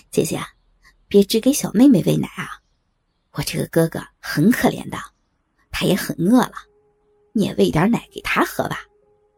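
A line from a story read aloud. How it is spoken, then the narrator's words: Mischievous, sly. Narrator (Chinese): 一脸坏笑的说道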